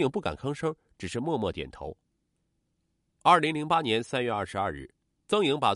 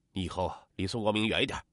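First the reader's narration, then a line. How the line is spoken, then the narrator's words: Stern warning. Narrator (Chinese): 曾国华厉声的警告女儿说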